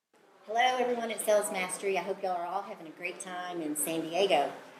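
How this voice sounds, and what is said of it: Arkansas accent. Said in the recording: “from Arkansas, and I love her accent”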